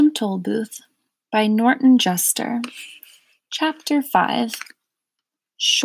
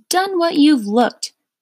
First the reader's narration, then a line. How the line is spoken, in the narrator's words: angrily shouted one of the salesmen